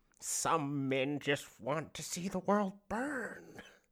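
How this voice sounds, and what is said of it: Imitates the Joker character's voice. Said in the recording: “That's my Joker. That's my Joker impression.”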